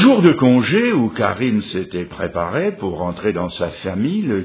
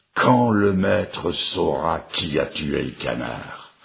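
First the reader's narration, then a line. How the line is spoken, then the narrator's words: Sententious tone. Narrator (French): le cuisinier disait d'un ton sentencieux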